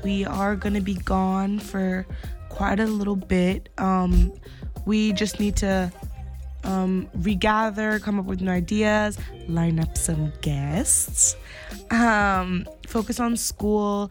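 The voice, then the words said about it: Croaky, fading voice. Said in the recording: “my voice is a little bit croaky. I'm losing it.”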